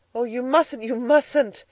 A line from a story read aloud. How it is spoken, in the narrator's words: exclaimed Edna